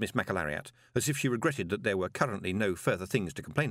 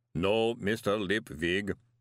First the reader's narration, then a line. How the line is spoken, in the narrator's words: golem rumbled